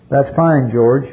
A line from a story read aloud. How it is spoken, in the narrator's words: Father Mancuso said